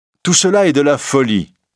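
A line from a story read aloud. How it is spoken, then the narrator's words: Irritated exclamation. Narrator (French): s'écrie l'inconnu de mauvaise humeur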